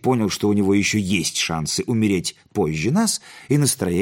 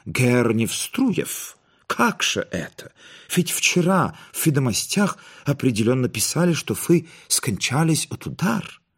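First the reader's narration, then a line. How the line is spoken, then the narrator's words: Gasping, horrified mutter. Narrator (Russian): Ахнет, с ужасом в глазах пробормочет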